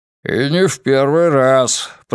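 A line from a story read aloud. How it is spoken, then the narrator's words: Grumbled. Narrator (Russian): пробурчал Григориус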